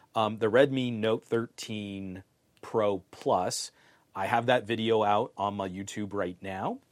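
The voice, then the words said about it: Strained, failing voice. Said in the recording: “my voice is going here”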